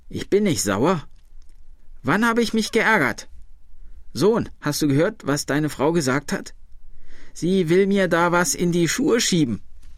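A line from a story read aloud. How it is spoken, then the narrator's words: Old woman calling out. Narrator (German): rief die alte Frau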